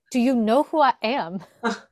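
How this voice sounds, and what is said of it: Imitates another person's voice, accented. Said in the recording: “I can't do the accent, but. ... No, I thought that was a good accent. ... I need to practice my impersonations. ... I thought it was perfect. On point.”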